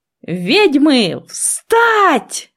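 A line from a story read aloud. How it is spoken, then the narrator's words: Yelling. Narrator (Russian): заорал он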